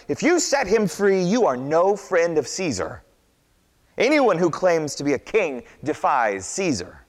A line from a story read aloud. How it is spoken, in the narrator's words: the crowd shouted